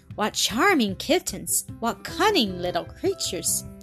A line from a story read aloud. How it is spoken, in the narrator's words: she exclaimed in her delight